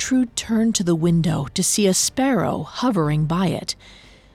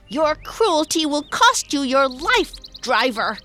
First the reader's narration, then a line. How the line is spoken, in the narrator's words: Gertrude screamed